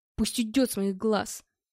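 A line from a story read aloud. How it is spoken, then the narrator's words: Through gritted teeth. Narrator (Russian): сквозь зубы произнес Белл Тенгизу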